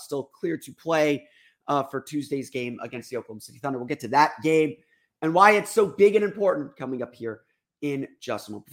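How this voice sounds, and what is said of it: Sick-sounding voice. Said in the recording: “If you can't tell by my voice, a little bit under the weather today”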